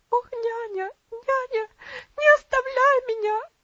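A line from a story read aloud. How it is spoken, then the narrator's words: Girl screaming, sobbing convulsively. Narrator (Russian): закричала девочка, прижимаясь к ней в конвульсивных рыданиях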